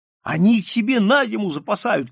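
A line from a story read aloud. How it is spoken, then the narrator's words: Boys shouting. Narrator (Russian): кричали мальчики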